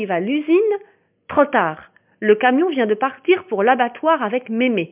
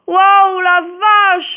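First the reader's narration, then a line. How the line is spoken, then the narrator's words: Exclaimed. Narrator (French): s'écrie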